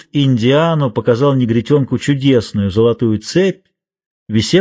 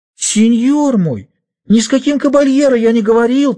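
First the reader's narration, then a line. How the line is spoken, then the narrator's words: Fake whimpering, child. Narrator (Russian): притворно захныкал негритенок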